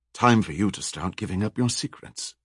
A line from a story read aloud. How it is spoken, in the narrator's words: whispered